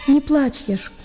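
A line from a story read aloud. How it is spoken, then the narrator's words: Tearful comforting. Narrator (Russian): утешал он его сквозь слезы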